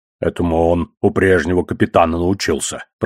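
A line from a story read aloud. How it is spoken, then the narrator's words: Muttered. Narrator (Russian): пробормотал одноглазый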